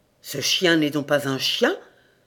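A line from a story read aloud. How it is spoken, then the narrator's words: Murmured, suddenly softened. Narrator (French): murmura Jobik subitement radouci et même un peu pâle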